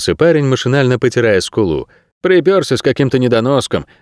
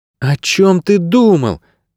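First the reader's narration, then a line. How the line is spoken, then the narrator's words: Exclaim. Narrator (Russian): воскликнула Мирта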